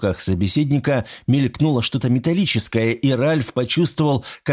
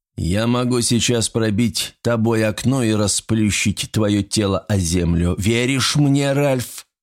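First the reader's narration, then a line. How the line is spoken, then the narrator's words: Plain. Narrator (Russian): спросил его собеседник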